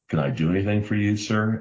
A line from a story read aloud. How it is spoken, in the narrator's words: asked Sam